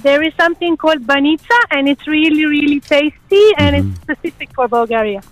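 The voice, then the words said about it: Non-native English accent. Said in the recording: “I can't pick the accent.”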